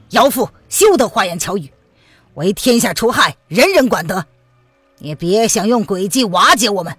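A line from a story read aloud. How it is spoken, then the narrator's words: Stern, harsh. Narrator (Chinese): 范定峰厉声的道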